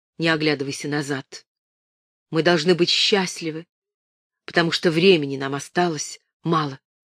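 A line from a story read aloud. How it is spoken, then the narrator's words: Whisper. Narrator (Russian): Он прошептал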